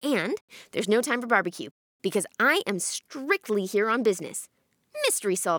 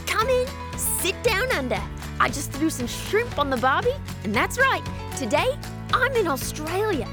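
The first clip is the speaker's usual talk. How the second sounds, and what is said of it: Weak put-on Australian accent. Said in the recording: “I can't do the accent.”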